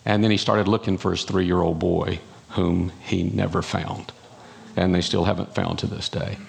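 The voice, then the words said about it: North Carolina accent. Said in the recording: “I'm from North Carolina, in case you didn't catch that accent ... might need an interpreter for some of you”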